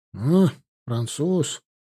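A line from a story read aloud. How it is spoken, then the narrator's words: Drawling. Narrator (Russian): протянул Стригунов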